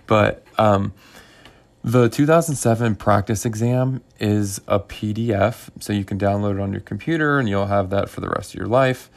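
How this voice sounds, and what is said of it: Hoarse voice. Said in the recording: “my voice is getting pretty hoarse”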